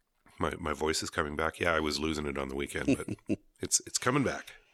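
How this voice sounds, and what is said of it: Slightly gravelly, hoarse voice. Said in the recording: “you're a little gravelly”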